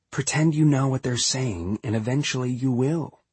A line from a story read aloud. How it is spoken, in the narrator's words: a girl named Mariana King, who grinned at my confusion and whispered in French